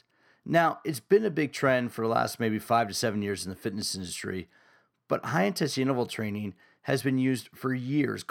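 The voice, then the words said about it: Scratchy voice from a cold. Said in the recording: “I'm kind of fighting a little cold, and my voice is a little scratchy”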